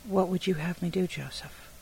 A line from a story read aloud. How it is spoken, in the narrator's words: tenderly spoken question